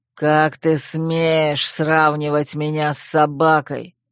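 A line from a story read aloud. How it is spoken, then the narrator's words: Hissing. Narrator (Russian): прошипел Койл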